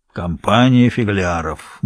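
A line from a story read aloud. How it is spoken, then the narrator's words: Gloomy repetition. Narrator (Russian): мрачно повторял мистер Баксуэрти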